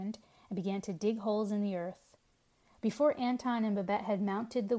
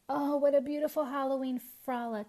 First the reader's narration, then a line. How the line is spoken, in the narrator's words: sighed Babette